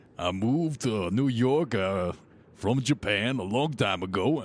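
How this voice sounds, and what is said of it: Stereotyped put-on accent. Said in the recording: “That's not a Japanese accent... That's stereotype. That's the stereotype.”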